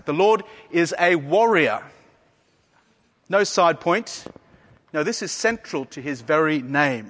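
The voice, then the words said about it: Speaker's own noticeable accent. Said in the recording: “You'll have to get past my accent.”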